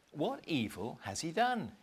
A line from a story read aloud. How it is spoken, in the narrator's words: asked